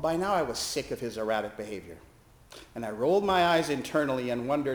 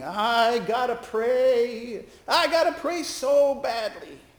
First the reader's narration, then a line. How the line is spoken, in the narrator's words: Brother Al began moaning